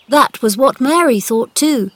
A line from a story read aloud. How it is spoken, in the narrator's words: said Colin